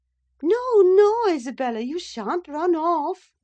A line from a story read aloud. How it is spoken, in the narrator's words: she continued, with feigned playfulness